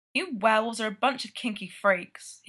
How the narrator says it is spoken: grumbles

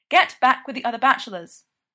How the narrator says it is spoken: snaps

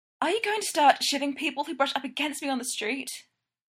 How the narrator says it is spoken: Stiles gasps

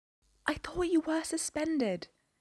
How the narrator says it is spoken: Jane whispered

